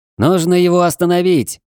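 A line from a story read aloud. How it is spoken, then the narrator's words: Shouted. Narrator (Russian): закричал Эрон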